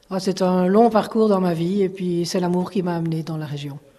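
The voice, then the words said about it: Slight Belgian French accent. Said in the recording (French): “ce petit accent ... Mon petit accent vient de Bruxelles ... je suis belge”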